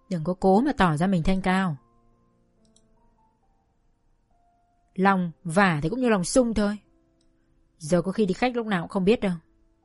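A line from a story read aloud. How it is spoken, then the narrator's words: Jealous, mocking sneer. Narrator (Vietnamese): Chị Phượng vẫn ganh ghét, nhếch mép cười mỉa mai và nói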